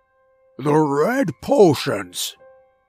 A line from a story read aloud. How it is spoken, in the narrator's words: shouted